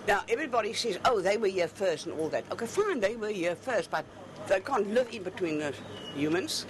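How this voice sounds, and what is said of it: Heavy Afrikaans accent. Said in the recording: “In a heavy Afrikaans accent”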